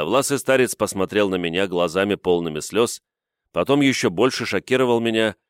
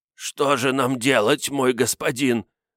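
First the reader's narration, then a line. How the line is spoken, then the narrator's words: Choked strained voice. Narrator (Russian): произнес он сдавленным голосом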